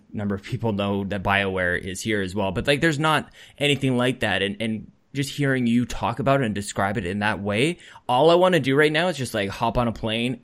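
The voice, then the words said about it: Canadian accent. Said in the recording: “I have the accent. I say about. Go. I really try hard to say about properly, but crap, it kind of slips a little bit.”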